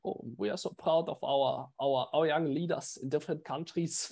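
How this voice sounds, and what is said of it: Imitates another person's accent. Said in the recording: “Ah, that's a perfect. ... That's a perfect accent, dude. I couldn't have even done it like that.”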